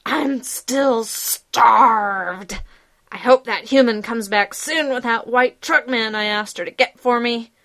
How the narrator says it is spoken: says loudly

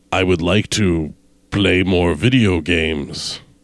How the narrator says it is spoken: rumbled Yog-Sothoth

